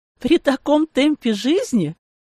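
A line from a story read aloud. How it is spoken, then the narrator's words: Laughing loudly. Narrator (Russian): хохотала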